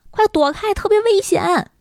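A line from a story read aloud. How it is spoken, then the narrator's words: Loud shout. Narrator (Chinese): 他就大声喊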